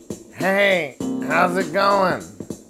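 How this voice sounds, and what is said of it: Imitation of a friend's voice. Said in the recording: “let me do his voice.”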